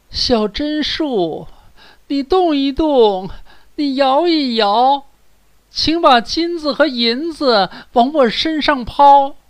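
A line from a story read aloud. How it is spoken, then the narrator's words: Girl calling out. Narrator (Chinese): 灰姑娘来到榛树下她母亲的坟前，喊道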